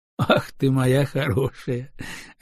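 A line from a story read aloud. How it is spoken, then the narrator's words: Laughing. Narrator (Russian): рассмеялся Семен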